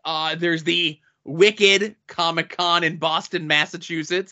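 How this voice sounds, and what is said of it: Attempted Boston accent. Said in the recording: “That's my attempt at a Boston accent.”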